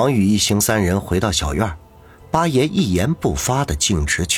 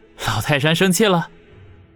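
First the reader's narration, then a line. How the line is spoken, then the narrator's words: Cheerful grinning. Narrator (Chinese): 王宇立刻满脸堆笑，笑嘻嘻的说道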